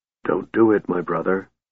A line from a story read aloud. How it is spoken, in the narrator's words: he said softly